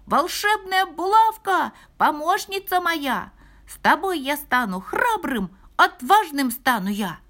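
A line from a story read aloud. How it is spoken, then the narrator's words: Shouting. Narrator (Russian): закричал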